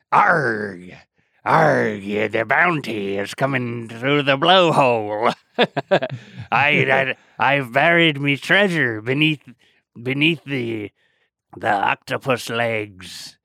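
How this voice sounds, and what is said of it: Pirate voice impression. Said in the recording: “I don't know if I have a better pirate impersonation.”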